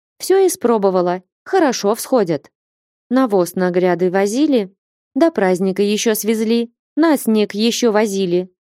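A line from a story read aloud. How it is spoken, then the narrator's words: Plain. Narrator (Russian): ответила Таифа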